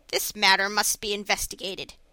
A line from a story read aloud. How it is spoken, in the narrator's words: said the merchant firmly